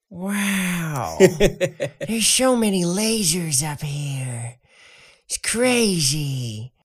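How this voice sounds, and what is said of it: Jennifer Coolidge impression. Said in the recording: “My favorite impression of yours is Jennifer Coolidge ... that's the other one I do quite a bit”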